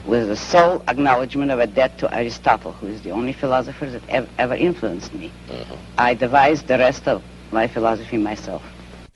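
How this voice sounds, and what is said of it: Russian accent. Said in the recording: “You have an accent which is... Russian.”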